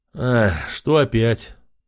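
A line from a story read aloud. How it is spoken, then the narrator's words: Resigned sigh. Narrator (Russian): парень обреченно вздохнул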